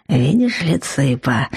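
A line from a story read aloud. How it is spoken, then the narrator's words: Suspicious troll whisper. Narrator (Russian): шепнул тролль мне в ухо, подозрительно оглядываясь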